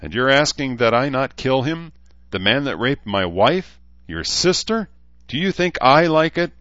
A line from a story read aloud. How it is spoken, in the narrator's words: Shida replied